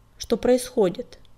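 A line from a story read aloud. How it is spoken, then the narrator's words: Stern question. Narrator (Russian): строго спросила синяя звезда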